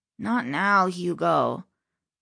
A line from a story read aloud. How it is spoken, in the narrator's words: Enrique mumbled groggily